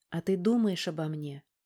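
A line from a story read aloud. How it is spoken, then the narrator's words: Timid question. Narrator (Russian): Робко и неожиданно для себя спросила Валька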